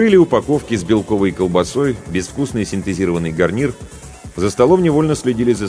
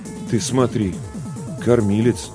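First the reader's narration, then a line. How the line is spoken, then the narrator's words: Bewildered mumble. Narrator (Russian): растерянно пробормотал Ларионов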